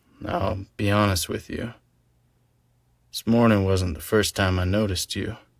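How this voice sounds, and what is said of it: Speaker with an attractive accent. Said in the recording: “my charming good looks and sexy accent”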